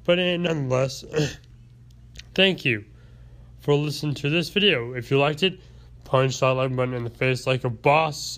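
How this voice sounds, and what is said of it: Sick, rough-throated voice. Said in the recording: “I'm still a little sick at this point in time, which is, you can probably tell by my throat and the way my voice sounds.”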